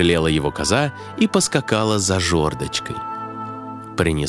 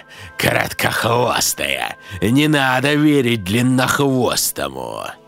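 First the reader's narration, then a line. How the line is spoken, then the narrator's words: Loud shouting. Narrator (Russian): Коза стала громко кричать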